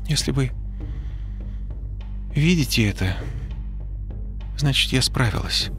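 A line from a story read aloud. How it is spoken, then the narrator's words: Trembling voice. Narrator (Russian): дрожащим голосом начала она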